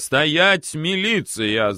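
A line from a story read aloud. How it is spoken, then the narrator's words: Shouting. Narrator (Russian): закричал милиционер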